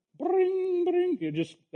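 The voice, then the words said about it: Vocal imitation of a harp. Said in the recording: “my harp impression”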